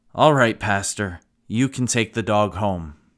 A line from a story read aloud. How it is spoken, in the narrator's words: the smallest of the boys, in a dejected manner, sighed, and said